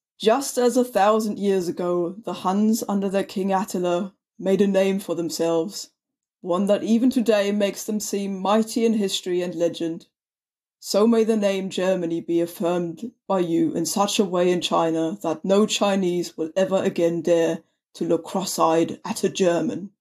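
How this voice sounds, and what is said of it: German accent. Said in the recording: “do the Kaiser Wilhelm voice ... my best German accent. Wait, I've already got one.”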